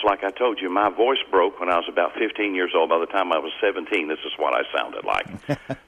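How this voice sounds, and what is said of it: Southern and midwestern accent. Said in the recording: “you do have a bit of a southern, you do have a bit of a southern accent, of course, but you also have a bit of that that midwestern sound, where almost you could hear yourself in 1940s Hollywood”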